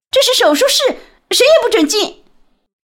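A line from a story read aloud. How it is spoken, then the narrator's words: Nurse shouting outside. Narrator (Chinese): 外面护士在嚷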